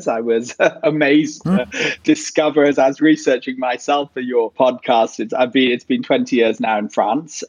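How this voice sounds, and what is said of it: British-educated English accent. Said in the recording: “as you can tell from my accent, I was at least British educated”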